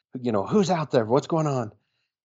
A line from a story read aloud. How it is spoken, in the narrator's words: yells